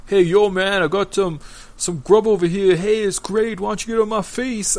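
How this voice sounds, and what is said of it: Put-on Brooklyn accent. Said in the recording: “sort of accent, but it's not like an accent like they're foreign ... Brooklyn?”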